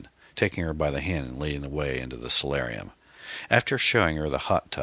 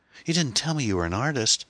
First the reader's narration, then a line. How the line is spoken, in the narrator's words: exclaimed